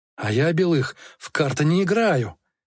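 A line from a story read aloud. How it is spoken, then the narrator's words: Hoarse wheeze. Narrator (Russian): хрипел капитан Солодовников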